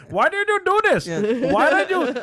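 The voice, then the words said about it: Put-on Indian accent. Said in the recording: “Say they're like Indian ... Their whole accent ... I can't talk like this anymore”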